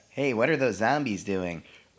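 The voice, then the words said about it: Imitates another person's voice. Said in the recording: “you did a Mr. Dowling impersonation”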